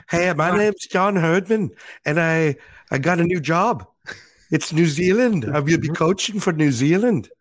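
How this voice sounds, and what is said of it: Impression of John Herdman. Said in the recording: “I've heard worse impersonations of John than that.”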